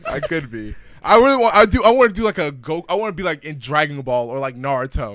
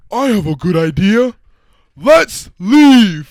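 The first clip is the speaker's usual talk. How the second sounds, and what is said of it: Cartoon character voice impression. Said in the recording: “Yeah, you could be Patrick, bro.”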